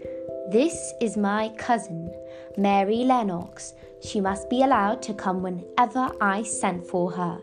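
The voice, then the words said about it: Imperious, commanding Raja-like voice. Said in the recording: “In his best Raja voice”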